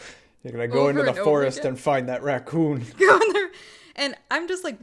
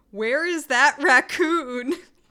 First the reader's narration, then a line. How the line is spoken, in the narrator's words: the actor screaming